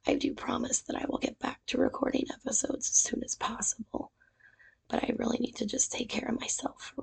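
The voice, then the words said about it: Hoarse, quiet, strained voice. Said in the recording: “As you can probably tell, I'm battling with laryngitis ... this is about as loud as I get”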